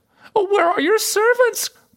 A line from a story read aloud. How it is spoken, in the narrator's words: cried